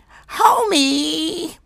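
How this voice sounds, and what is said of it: Imitates Marge Simpson's cartoon voice. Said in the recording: “Yesterday, I sounded like Marge Simpson ... I sounded like Marge Simpson yesterday”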